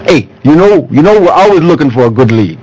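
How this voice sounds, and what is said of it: Unidentified put-on comic accent. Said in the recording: “I don't know what that accent was, but it was something.”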